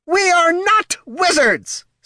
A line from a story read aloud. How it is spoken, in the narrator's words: snapped Wrathwine